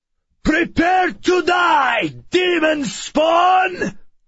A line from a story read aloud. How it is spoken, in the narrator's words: he shouted